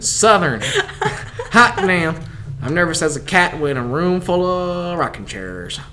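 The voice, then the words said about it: Strong Southern American accent. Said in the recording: “just Southern ... That was very Southern.”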